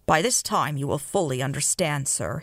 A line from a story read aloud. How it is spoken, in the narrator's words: he said